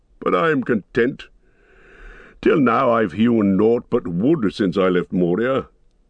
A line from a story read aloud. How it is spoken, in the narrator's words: laughed the dwarf